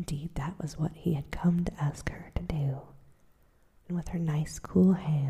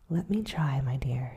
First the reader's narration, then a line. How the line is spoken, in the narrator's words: she said